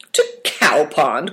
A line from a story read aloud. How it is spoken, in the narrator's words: cried the Duke, displeased